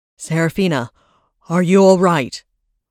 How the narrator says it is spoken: Varys panted

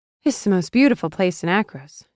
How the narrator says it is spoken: she sighed

